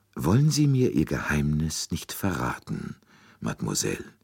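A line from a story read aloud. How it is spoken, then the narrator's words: Very gentle, almost imploring. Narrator (German): Poirots Stimme klang sehr sanft, fast beschwörend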